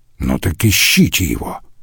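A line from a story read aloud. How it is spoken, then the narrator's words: Grumbling. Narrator (Russian): проворчал Штайнер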